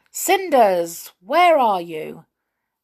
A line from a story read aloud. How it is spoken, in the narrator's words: he called loudly